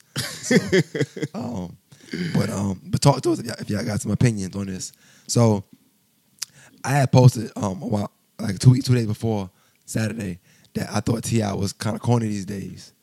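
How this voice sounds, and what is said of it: Hoarse voice. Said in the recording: “My voice is hoarse... It's going to be hoarse on the mic, too, but it's going to be a better version of hoarse. It's going to be a crisp hoarse.”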